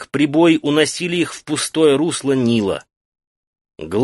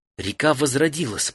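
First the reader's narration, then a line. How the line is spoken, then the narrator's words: Whispered. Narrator (Russian): прошептала Фен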